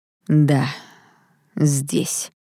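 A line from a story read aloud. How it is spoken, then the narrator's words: Through gritted teeth. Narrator (Russian): сквозь зубы ответил ее возлюбленный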